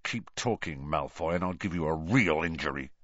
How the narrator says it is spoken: snarled Ron

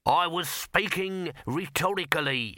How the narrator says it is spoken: snapped Throat

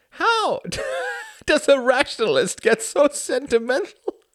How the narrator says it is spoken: He laughed again, harder

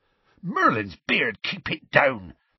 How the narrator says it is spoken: said Hagrid hastily

